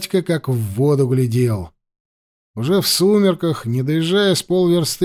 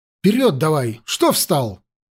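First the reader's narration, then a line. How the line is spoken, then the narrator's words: Sudden bark. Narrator (Russian): Вдруг, неожиданно для самого себя, рявкнул он на оробевшего кучера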